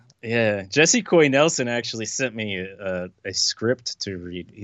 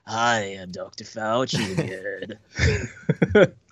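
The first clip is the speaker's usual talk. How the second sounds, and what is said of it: Imitates another person's voice. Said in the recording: “He seemed to like my impression ... impersonating him”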